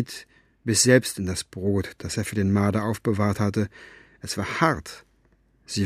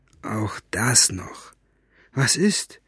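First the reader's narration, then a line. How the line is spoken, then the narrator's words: Murmur. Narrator (German): murmelte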